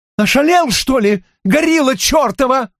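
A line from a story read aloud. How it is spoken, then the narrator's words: Yelling. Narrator (Russian): заорала она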